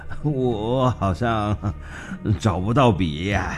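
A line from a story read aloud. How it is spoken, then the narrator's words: Foolish giggling. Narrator (Chinese): 痴仙则是傻笑地说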